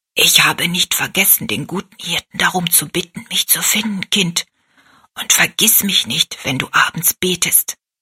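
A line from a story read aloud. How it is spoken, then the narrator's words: Whispered into ear. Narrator (German): flüsterte sie Rosalie ins Ohr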